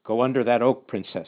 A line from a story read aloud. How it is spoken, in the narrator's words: said Gottlieb